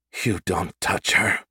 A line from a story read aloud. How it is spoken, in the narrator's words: Natalia hissed